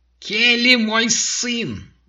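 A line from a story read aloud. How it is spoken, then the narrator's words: Yelling. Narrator (Russian): заорала леди Макбет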